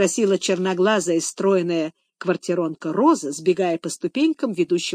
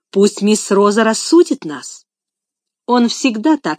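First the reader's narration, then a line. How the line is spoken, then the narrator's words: Angry speech. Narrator (Russian): сказала квартиронка, сердито глядя на Адольфа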